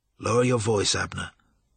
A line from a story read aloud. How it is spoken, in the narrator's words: said calmly